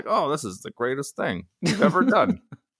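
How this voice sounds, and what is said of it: Imitates another person's voice. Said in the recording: “That was my impression of Seriously, Darian”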